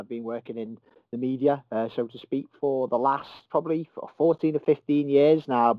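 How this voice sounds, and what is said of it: Merseyside English accent. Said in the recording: “I'm from Merseyside, as hopefully people can tell by the accent.”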